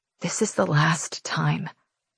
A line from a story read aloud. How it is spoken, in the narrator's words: I whisper